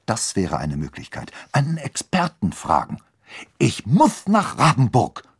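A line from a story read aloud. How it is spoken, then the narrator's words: Determined hiss. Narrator (German): fauchte entschlossen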